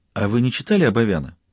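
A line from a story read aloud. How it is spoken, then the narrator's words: Sudden question. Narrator (Russian): Майрик неожиданно спросила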